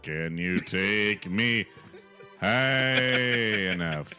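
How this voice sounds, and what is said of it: Singing high in falsetto. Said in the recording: “you took it up so high too... went right to the tenor place... my falsetto there”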